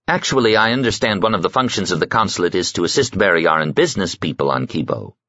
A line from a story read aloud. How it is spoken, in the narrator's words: His partner lady put in smoothly